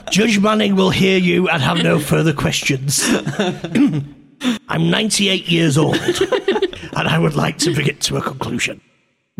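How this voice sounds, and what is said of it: Voice of a 1970s comedian. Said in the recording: “doing this in the voice of a 70s comedian”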